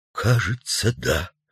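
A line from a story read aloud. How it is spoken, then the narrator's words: Quiet, reluctant admission. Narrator (Russian): произнес тихо редактор, не смея отрицать, но и не желая, чтобы сотрудники услышали об этом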